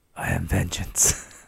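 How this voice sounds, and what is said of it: Batman impression voice. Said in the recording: “your other impersonations are a little off, but that was actually quite good”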